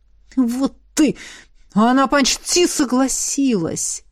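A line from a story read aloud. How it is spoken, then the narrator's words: Annoyed, through gritted teeth. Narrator (Russian): процедил демон, не скрывая досады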